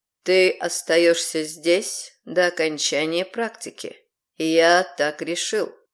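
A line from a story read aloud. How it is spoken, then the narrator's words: Calm. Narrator (Russian): произнес Рейвен уже спокойно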